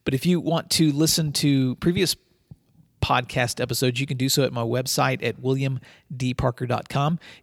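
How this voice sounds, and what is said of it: Slightly hoarse voice. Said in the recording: “my uh, throat is a little hoarse. ... so I apologize for any voice changes”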